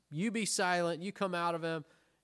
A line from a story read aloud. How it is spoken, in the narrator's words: Jesus rebukes him, says